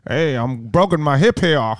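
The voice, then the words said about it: Christopher Walken impression. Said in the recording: “He does a Christopher Walken impression. ... Yeah, I guess they're both bad.”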